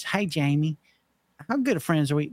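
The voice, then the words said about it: Imitated Kentucky accent. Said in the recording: “That's my Kentucky accent. ... I might be not nailing”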